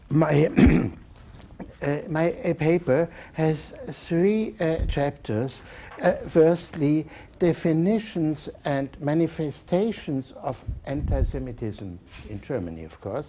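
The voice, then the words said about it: Strong German accent in English. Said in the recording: “it's the true German bad accent you will hear”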